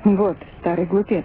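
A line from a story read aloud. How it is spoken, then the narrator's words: Plain. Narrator (Russian): сказал Джордан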